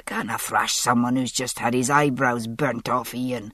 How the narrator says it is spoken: Jamie protested hoarsely

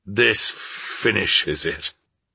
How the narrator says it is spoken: mutter in a hollow tone

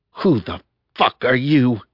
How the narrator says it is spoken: She growled

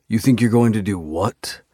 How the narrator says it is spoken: I snarl at Reaper

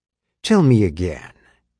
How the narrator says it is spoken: he purred into the phone

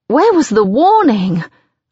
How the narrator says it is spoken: I gasp

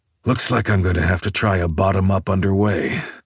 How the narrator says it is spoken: With a sigh, I say

